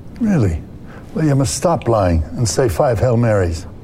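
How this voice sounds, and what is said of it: Slight Irish priest accent. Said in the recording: “Is ... doing an accent, by the way? ... He's doing like Irish priest, ... just like a tiny bit. ... Yeah, a little bit.”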